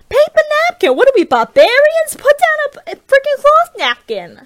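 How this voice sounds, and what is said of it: Loose made-up impression of Denise. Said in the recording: “Denise says, and I'm gonna do an impression that is not an impression because I don't remember what she sounds like, but this is my interpretation”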